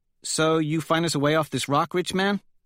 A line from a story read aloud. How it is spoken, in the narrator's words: Holiday asks Quicksilver